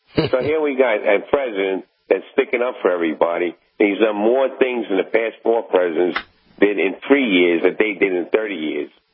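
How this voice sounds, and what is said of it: New York accent. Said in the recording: “Do I detect a New York accent there? ... Yes, absolutely.”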